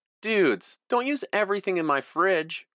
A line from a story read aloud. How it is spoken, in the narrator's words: Eric cried